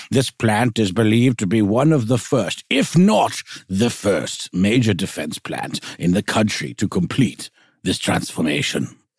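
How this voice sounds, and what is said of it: Reads quote in wizard-like voice. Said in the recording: “talk like a wizard ... weird choices in our quotation voices”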